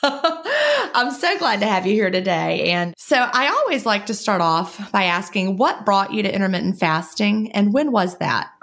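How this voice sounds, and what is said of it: Southern US accent. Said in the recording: “I'm down here in the southern United States ... I apologize for my accent.”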